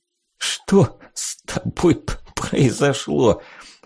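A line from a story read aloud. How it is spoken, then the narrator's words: Forced out through laughing tears. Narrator (Russian): Сквозь приступы несвоевременного веселья и слезы, текущие из глаз, с трудом смог выдавить я из себя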